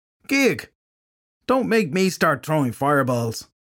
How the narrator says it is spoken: Filthy Henry shouted

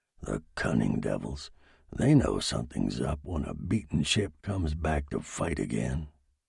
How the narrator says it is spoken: John McPartland whispered, half to himself

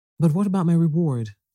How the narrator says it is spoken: called the crane, anxiously

